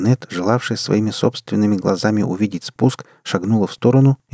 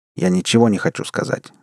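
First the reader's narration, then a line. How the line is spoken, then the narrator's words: Rather sharp. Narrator (Russian): довольно резко ответил Барри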